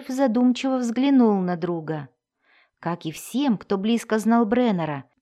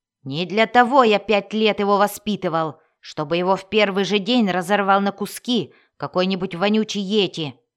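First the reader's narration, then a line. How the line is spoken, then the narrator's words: Irritated bark. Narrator (Russian): рявкнул Бреннер, раздраженный тем, что друг медлит с ответом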